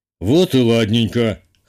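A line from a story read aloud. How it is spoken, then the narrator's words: Skeptical snort. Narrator (Russian): хмыкнул Петр Иванович, явно дочери не поверив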